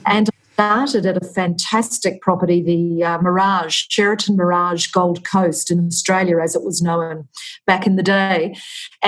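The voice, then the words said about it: Australian accent. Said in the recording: “I am Australian, as probably the listeners can tell from my accent”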